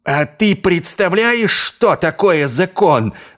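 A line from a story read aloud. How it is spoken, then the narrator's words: Yelled. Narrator (Russian): заорал Ваймс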